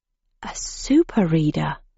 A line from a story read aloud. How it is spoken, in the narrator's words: I breathed